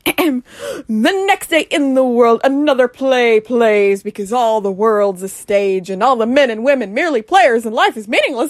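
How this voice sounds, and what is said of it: Really dramatic voice. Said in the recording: “I like to do a really dramatic voice for this”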